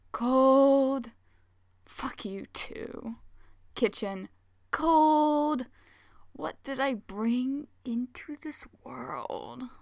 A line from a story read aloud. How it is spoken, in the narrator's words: Hayato groans